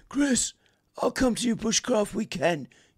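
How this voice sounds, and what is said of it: Bad imitation of another person's voice. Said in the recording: “That's a bad Lofty impression.”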